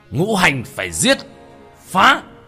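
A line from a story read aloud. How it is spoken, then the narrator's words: Sudden shout. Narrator (Vietnamese): Tiểu Thất hét lên một tiếng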